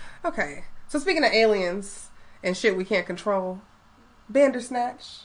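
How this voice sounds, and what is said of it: Usual voice. Nothing is said of it.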